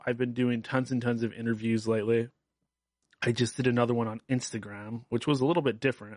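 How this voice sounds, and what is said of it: Hoarse, worn-out voice. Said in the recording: “my voice is a little bit gone”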